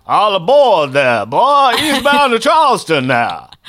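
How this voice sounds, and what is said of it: Put-on Southern accent. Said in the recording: “But with a southern accent.”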